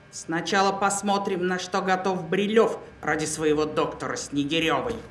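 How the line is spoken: Angrily. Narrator (Russian): зло продолжила

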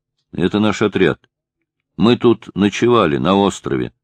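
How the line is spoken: Plain. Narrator (Russian): сказал Глеб

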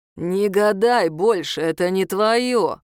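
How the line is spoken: Demonic growl. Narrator (Russian): прорычал бес

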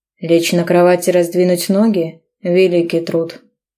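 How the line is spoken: Snarling growl. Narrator (Russian): Рычал, словно неудовлетворенный выродок

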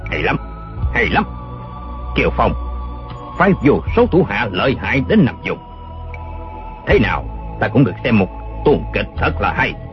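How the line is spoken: Cold voice. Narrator (Vietnamese): giọng nói lạnh lùng ban nãy lại phát ra

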